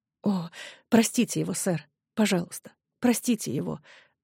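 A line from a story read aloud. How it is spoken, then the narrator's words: Whispered pleading. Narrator (Russian): шепотом взмолилась она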